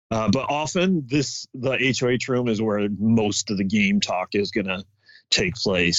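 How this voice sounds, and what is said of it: Usual voice. Nothing is said of it.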